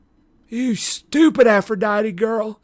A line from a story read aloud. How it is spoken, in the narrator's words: Clarice sobbed